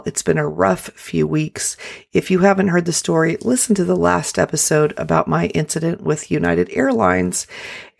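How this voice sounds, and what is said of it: Unwell, strained voice. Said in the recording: “I apologize today for my voice. I have not been feeling well.”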